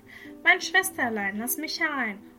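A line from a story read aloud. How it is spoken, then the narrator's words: Calling out. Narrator (German): hörte, wie es rief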